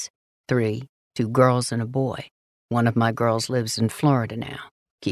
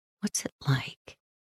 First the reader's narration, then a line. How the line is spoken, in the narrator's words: I whisper